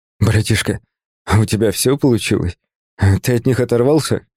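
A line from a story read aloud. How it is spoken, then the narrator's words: Hoarse, breathless. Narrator (Russian): Хрипло выдохнул я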